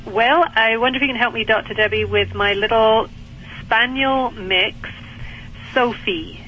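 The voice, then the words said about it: British accent. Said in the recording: “It's a British accent.”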